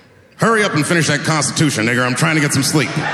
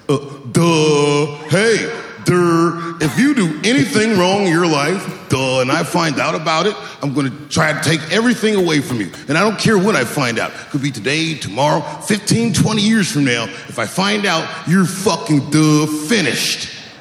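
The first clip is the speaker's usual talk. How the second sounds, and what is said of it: Imitates another person's voice. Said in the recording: “doing an impression”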